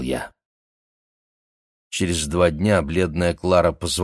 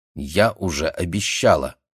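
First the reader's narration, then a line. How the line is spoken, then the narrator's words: Stern. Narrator (Russian): строго сказала она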